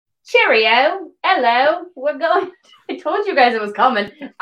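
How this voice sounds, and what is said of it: Terrible fake English accent, sounds Australian. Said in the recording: “my English accent, my terrible, terrible English accent ... Why does that sound Australian and not British?”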